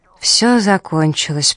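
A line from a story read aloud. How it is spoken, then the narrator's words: Muttered. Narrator (Russian): пробормотал он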